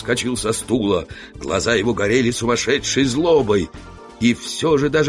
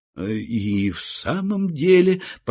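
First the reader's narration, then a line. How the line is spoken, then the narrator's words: Mumbled. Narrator (Russian): промямлил я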